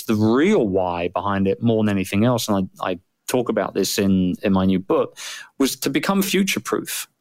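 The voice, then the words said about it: British accent. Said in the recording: “I'm a Brit, and which is why I sound strange probably to some of your”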